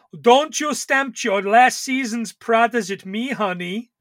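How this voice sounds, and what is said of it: Put-on accent for a character. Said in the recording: “I feel a little bit bad doing that accent”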